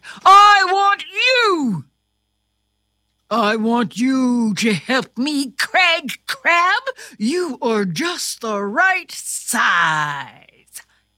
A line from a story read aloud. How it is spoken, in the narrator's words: King Crab shouted